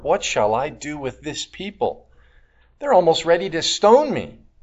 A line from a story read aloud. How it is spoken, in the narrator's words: Moses cried to the Lord